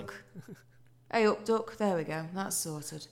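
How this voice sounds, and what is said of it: Put-on cheery Yorkshire accent. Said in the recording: “that sounded like a Yorkshire person ... It's just a very cheery accent ... It's very good.”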